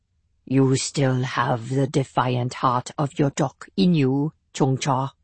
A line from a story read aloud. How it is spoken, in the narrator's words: said Rim Young coldly